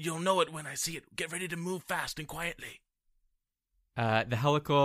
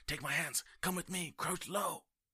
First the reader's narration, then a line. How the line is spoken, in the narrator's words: whisper to Brisbane and Kor